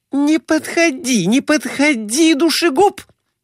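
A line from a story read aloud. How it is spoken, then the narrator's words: Shriek. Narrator (Russian): взвизгнула лежавшая на диване Глафира Семеновна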